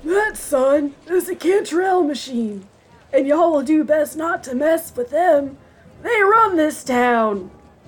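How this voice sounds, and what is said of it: Old man voice. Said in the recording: “Your old man voice is my favorite.”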